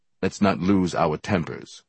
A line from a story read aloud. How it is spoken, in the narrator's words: Brother Jack said calmly